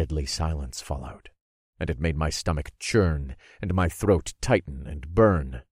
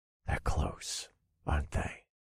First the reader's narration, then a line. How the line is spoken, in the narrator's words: I whispered